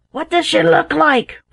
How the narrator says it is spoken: roared the captain

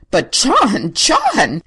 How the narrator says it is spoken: gasped Mrs

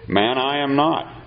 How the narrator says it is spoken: Peter replied

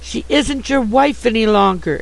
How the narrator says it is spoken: exclaimed Sue, passionately excited

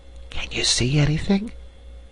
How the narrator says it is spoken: whispered Hilda at last

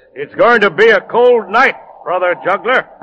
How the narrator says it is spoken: the monk smiled at him and called out

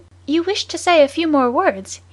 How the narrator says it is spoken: he asked, in a pleasant voice

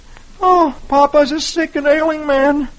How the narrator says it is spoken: Dagwood moans

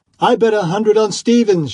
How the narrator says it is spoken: shouted one

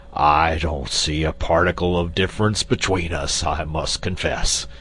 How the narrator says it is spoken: retorted Quox gruffly

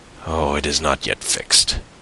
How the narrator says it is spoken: murmured Fernand

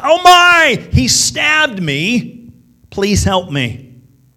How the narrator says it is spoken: She yelled out

